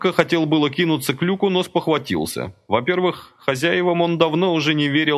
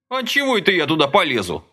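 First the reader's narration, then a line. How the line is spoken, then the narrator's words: Angry. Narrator (Russian): сердито сказал Ромка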